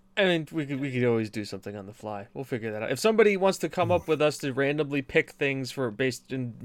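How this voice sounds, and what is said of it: Usual voice. Nothing is said of it.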